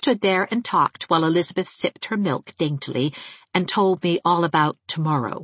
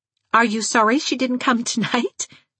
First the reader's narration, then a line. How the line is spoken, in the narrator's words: I laughed